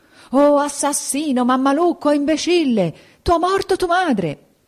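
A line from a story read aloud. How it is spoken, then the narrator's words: Desperate howling. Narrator (Italian): a urlare, per la disperazione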